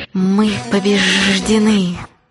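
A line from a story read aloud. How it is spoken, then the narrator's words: Hiss. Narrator (Russian): зашипела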